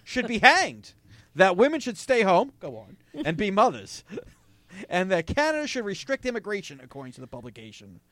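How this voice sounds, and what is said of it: New York accent. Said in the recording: “Listen to you with your New York accent.”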